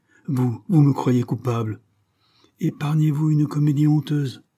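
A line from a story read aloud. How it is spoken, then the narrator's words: Exclaiming. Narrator (French): s'écria-t-il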